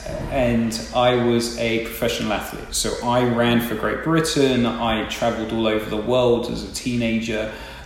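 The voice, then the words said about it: English accent. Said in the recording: “I actually grew up in England, probably tell from my accent,”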